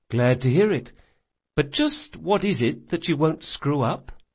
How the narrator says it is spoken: Bug sighed

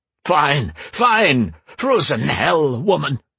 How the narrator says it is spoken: he gasped

